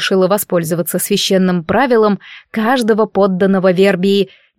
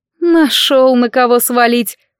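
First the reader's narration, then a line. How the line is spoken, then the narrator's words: Snorted. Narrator (Russian): фыркнула Фрейлина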